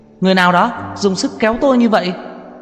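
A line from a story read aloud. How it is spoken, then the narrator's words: Reporter shrieks. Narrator (Vietnamese): một ký giả kêu hét lên một tiếng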